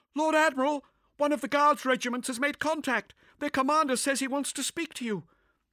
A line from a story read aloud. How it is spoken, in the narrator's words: one of the Vox operators called out to him